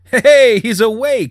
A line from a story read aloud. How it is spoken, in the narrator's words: he said, a little too loudly